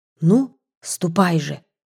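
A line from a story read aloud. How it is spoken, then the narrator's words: Whisper. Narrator (Russian): шепотом произнесла Кира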